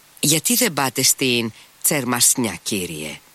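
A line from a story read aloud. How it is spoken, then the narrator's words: Said, smiling familiarly. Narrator (Greek): είπε ο Σμερνιακόφ και ξαφνικά σήκωσε επάνω του τα μικρά του μάτια και χαμογέλασε με οικειότητα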